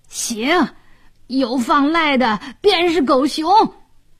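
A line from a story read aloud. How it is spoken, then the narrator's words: Thief shouting. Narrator (Chinese): 一个贼大叫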